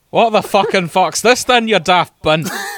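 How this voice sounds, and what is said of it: Put-on strong Scottish accent. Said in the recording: “I'm glad I don't have to change the accent. ... An even more Scottish doctor. ... I could just keep the Scottish.”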